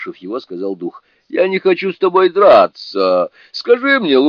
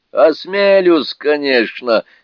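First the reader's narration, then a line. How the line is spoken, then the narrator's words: Laughing reply. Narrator (Russian): смеясь отвечал Сунь-Кун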